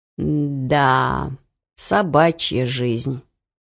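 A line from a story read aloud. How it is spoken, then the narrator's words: Grumbling. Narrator (Russian): проворчал Бар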